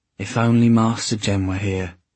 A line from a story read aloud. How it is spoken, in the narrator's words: Sophie sighed